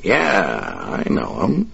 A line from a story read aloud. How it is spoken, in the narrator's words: Dave replied, his voice thick with contempt